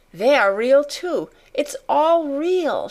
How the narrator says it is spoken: she cried

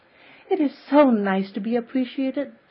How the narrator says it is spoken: sighed Anne rapturously to Marilla

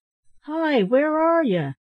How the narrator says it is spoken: cried another

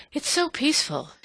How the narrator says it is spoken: she said, as if in explanation of her sigh

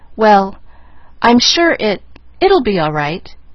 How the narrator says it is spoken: Nancy managed to stammer

